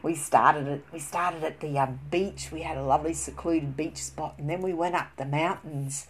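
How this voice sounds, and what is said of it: Australian accent. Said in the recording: “that's an Australian terminology, as you can tell by my voice here... I am born and bred in Australia”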